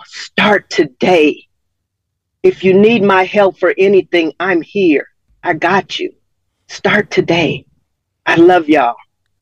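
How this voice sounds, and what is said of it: Emotional, choked-up speech. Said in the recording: “getting emotional”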